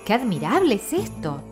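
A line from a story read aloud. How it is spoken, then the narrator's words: Mother exclaiming. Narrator (Spanish): Su madre no pudo menos que exclamar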